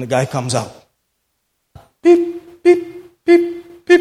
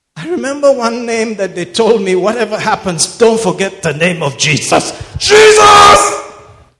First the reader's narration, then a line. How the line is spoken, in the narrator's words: While in the throes of death, he may just have shouted